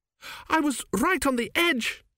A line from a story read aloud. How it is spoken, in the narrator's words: she wailed